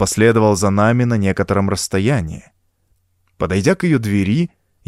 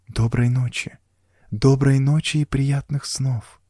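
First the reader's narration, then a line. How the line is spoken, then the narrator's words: Whispered. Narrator (Russian): прошептала она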